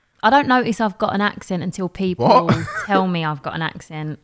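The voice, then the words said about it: East London Cockney accent. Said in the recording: “doing everything in my accent ... legitimately like Cockney for the whole session ... The East London accent”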